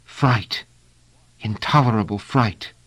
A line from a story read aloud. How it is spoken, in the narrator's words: said, in a whisper